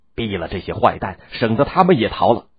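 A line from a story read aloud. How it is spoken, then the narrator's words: Angry group roar. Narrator (Chinese): 大伙怒吼道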